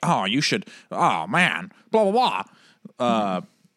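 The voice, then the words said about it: Imitates another person's voice. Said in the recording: “that was my Derek impression”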